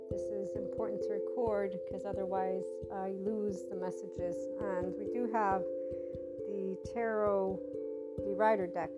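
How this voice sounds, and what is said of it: Strained, worn voice, kept quiet. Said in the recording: “My voice is a little bit used, or my vocal cords are, so we're gonna keep my tone down.”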